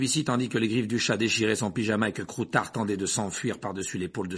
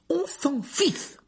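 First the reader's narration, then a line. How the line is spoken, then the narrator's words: Impatient retort. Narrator (French): répliqua Ron d'un ton impatient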